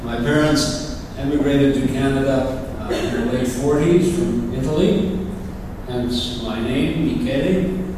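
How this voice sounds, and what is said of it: Canadian English accent. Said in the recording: “You can tell by my accent, I'm Canadian, not an American.”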